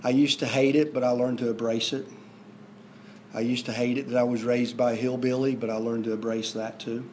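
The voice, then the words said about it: Southern twang. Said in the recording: “My southern twang came from them. I sometimes think I've lost it, but I haven't. I get reminded very quickly from the people here from the north.”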